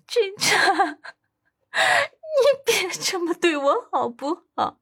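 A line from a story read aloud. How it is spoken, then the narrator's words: Sobbing uncontrollably. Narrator (Chinese): 温子欣…哭到不能自已…哭道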